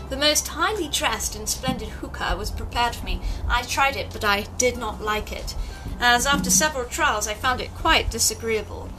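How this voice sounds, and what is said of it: Exaggerated upper-class British accent. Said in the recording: “I shall read it for you in my most upstartish British accent here”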